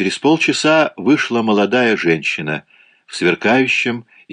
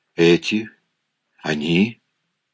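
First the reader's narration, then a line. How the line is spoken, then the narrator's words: Excited stammering whisper. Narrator (Russian): прошептал я от волнения, запинаясь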